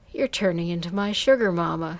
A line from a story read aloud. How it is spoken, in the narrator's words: he laughed